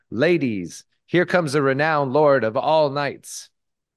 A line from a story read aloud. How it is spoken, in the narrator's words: the elder daughter could not hold her tongue, but cried